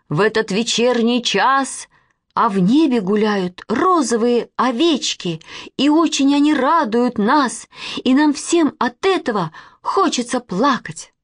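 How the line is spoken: Plain. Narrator (Russian): сказала Манечка

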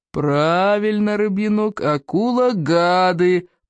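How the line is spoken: Booming drone. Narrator (Russian): прогудел Плевака

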